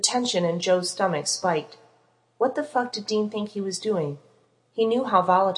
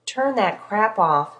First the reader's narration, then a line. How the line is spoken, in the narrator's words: an angry voice slurred loud enough to carry